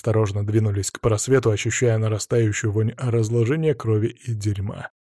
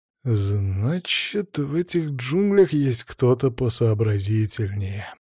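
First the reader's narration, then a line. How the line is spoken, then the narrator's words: Slow. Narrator (Russian): медленно проговорил я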